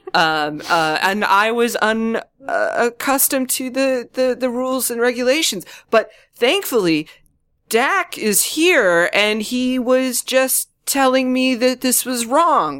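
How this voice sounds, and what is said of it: Put-on Scottish or British accent. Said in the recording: “there's just an accent ... It's like Regis, Scottish ... It's a regional thing ... Yeah, it's British.”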